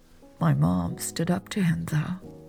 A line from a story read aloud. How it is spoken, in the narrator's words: Lex said, her voice muffled